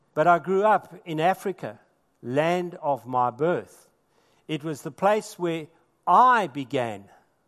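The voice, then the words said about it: South African accent. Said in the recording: “South Africa, which is the land of my birth... you can hear that from my accent”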